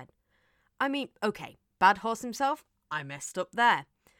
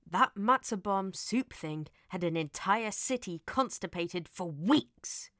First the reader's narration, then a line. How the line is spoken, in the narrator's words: Elliot growled